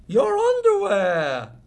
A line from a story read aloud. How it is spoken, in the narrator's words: his mother laughed